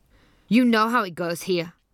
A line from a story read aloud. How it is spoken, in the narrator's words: one little girl snapped